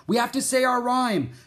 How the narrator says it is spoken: Jack shouted

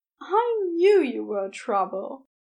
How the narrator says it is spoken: he said with a fond sigh

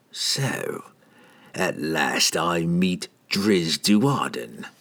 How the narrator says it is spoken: Treri hissed

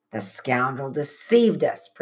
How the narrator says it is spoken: Praiseworthy muttered

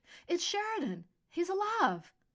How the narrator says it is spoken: Calista yelped

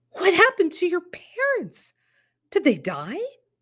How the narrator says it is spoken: Early felt the world jiggle, slump for a moment, and blurted

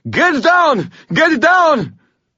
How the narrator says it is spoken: screamed

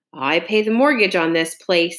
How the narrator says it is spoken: he growls

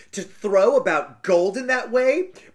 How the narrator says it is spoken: cried her the stepsister

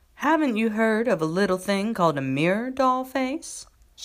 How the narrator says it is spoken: she'd ask teasingly

